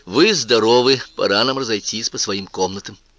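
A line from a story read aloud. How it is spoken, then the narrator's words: Cold declaration. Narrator (Russian): холодно заявила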